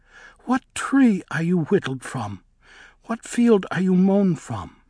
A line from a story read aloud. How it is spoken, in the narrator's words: asked it, almost tenderly